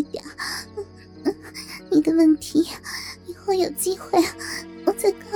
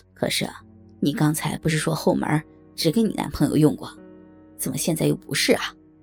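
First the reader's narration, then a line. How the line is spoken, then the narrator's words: Suspicious muttering. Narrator (Chinese): 满腹狐疑的老柯 嘀咕着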